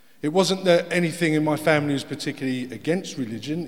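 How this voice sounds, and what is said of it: Essex accent, dropped H. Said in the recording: “This is where the accent comes from. My hometown of Harlow. Well, Arlo, if you're there. It's very much a silent H.”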